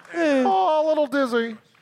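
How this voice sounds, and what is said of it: Kevin McDonald impression. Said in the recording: “I just do a little bit of the Kevin McDonald impersonation.”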